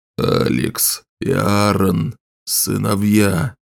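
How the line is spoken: Exhaled, smiling. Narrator (Russian): Енох выдохнул и улыбнулся

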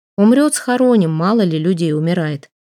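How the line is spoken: Plain. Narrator (Russian): сказал писарь

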